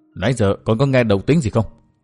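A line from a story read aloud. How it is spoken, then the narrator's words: Soft question. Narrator (Vietnamese): ông khẽ hỏi Đinh Linh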